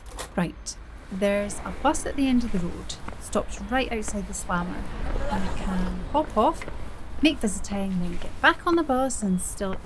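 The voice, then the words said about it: Scottish accent. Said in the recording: “strong language in a Scottish accent.”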